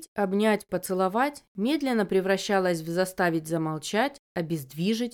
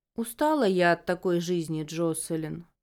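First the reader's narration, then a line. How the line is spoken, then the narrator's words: Weary sigh. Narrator (Russian): вздохнула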